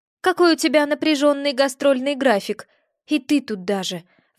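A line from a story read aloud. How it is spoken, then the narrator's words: Sighed. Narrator (Russian): вздохнула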